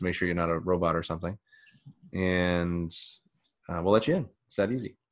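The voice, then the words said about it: Strained, nearly lost voice. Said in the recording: “I have no voice. I can't do it.”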